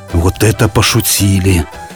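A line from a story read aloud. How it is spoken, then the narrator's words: Frightened whisper. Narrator (Russian): испуганно прошептал Пашка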